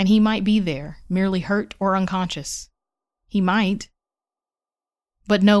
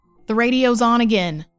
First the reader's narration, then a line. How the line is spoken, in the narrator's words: Kai yelled, panicked